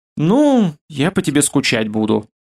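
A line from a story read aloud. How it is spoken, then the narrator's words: Mocking innocent tone. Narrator (Russian): явно издеваясь над ним, невинным тоном произнесла Ралаша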